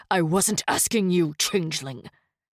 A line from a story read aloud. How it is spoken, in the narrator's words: Sorrel snapped